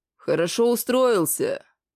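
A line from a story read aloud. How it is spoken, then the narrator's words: Growled. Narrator (Russian): прорычал полуорг Гекельбери Хакельбери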